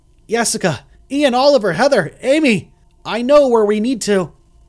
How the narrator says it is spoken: shouted

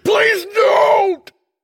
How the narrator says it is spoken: He pleaded, in between gasping for air

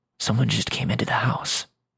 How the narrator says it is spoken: whisper

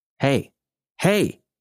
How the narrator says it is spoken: he almost shouted

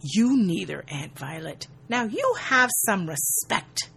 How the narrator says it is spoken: she hisses

